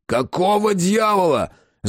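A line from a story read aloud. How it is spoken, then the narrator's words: Bellowing at full voice. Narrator (Russian): заорал во всю глотку убийца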